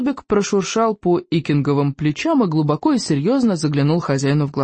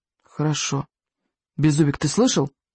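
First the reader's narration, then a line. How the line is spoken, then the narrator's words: Stern whisper. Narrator (Russian): строго шепнул Икинг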